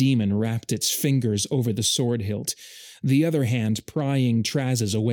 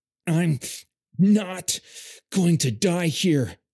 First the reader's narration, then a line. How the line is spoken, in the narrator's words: Traz said, voice gasping through the pain